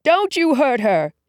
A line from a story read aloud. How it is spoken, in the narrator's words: he yelled